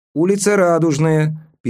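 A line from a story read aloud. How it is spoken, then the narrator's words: Squeaky speaker voice. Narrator (Russian): пискнул динамик в изголовье моего кресла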